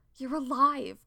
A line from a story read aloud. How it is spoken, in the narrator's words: Cody exclaimed